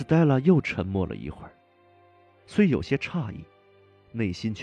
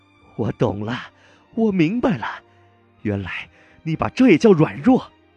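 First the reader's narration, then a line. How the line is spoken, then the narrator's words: Loud cry. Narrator (Chinese): 郝维仙小姐大声叫道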